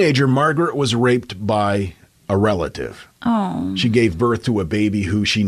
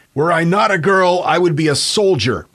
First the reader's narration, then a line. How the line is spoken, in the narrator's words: Margaret reportedly yelled at her brother